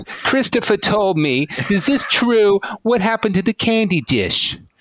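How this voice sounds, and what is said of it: Impression of a mother's voice. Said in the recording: “let me see if I do an impression of your mom again”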